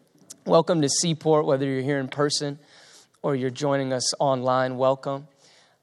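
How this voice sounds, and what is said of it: Strained, hoarse voice. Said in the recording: “I'm losing my voice from singing this morning.”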